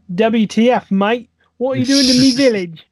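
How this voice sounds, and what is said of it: Mixed Australian and Cockney accent. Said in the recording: “I don't know how I mixed Australian and Cockney accent together there, but somehow I did.”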